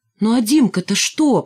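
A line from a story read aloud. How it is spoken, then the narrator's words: Near shout. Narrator (Russian): почти крикнул Николай Николаевич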